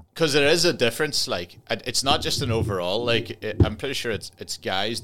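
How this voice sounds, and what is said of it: Donegal Irish accent, part Northern Irish. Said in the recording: “To you, I sound Donegal, but to Donegal people, I sound half Donegal. I've got the half Northern Irish, because I'm from the border part.”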